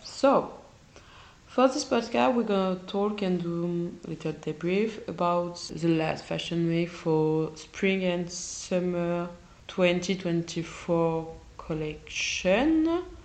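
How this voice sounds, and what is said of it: Sick, unwell-sounding voice. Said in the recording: “I'm a little sick, so my voice is not very okay”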